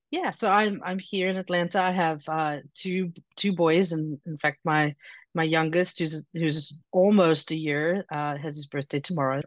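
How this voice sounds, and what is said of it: Slight South African accent. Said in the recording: “originally from South Africa. There's a little bit of an accent left ... Just a little. ... Enough that people ask where I'm from”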